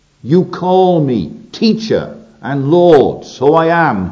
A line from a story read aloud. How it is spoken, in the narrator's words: he said